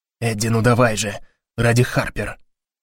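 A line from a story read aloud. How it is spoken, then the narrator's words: Whispered. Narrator (Russian): шепнул Гарри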